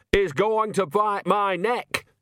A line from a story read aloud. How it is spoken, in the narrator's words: shouted Nanny